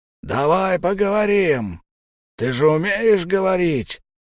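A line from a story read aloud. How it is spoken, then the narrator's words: Hoarse yelling big man. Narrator (Russian): хрипло орал здоровяк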